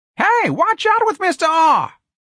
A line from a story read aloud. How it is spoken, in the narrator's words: someone screamed